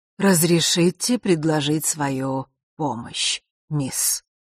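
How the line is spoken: Strong, velvety, husky male voice. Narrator (Russian): произнес он все тем же сильным и в то же время бархатным с хрипотцой голосом

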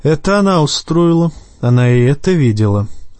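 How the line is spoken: Sighing. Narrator (Russian): Станис вздохнул

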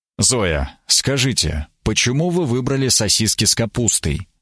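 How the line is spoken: Quiet question. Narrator (Russian): спросил я тихо

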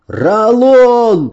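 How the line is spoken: Shouted. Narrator (Russian): закричал

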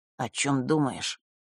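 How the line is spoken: Quiet question. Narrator (Russian): тихо спросил Маар

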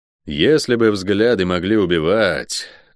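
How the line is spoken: Thoughtful. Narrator (Russian): задумчиво произнес я

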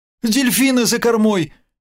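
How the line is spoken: Thin high shout. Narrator (Russian): тоненько крикнула Света

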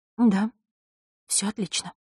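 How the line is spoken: Trembling whisper. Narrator (Russian): прошептала она, и голос ее задрожал под холодным, изучающим взглядом Мартиновой

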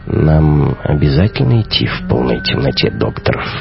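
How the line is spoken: Low-voiced question. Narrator (Russian): вполголоса спросил он

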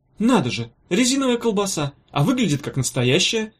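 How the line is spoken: Surprised exclamation. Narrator (Russian): удивленно воскликнул он

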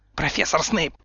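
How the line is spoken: Through gritted teeth. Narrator (Russian): процедила Амбридж

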